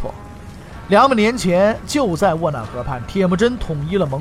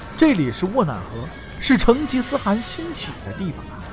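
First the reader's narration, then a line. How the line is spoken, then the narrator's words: Sighing. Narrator (Chinese): 对身边的侍卫感叹道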